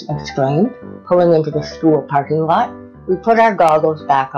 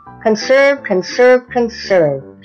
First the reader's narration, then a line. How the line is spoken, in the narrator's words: shouted the Frizz